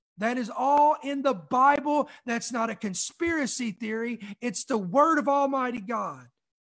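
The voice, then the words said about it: Loud, yelling, fired-up delivery. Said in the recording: “why are you yelling? ... Why do you get so loud? Why do you get so exuberant? Why do you get so expressive?”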